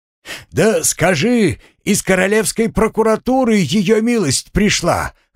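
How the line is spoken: Shouted after someone. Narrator (Russian): крикнул часовой ему вслед

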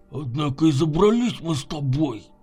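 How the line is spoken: Mumbling with full mouth. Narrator (Russian): пробурчал набитым ртом Егор

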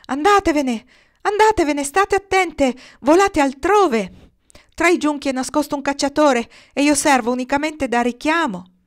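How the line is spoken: Shrieking. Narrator (Italian): quando altre anatre comparvero si mise a strillare

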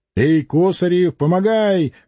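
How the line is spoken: Blacksmith shouting. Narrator (Russian): крикнул кузнец

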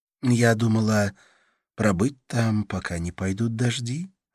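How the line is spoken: Soft. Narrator (Russian): ответила она мягко

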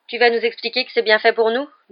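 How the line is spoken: Fierce question. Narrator (French): demanda Ron d'un ton féroce

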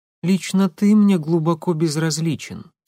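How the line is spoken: Plain. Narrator (Russian): сказала она

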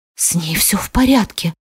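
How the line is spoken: Whispered. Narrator (Russian): шептал

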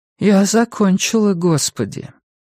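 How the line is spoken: Heavy sigh. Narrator (Russian): Абигейл тяжело вздохнула

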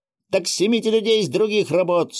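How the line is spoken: Shouting again. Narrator (Russian): снова закричала Клава

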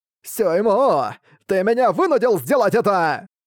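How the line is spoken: Child shouting. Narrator (Russian): закричал ребенок с большой головой

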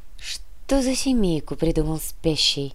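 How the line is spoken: Sad smiling. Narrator (Russian): грустно улыбнулась Яна

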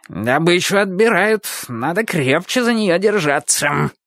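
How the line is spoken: Puppy growling. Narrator (Russian): прорычал щенок

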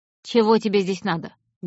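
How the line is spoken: Rude question. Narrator (Russian): грубо спросила женщина

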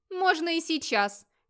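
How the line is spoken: Shout. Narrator (Russian): крикнул Модвит Весло

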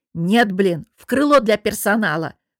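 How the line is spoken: Angry bark. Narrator (Russian): Выходя из себя, рявкнула я

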